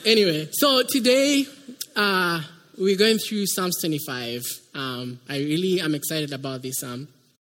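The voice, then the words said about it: Kenyan English accent. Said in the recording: “I come from Kenya. That's why you can hear an accent. ... I've been able to have some American accent.”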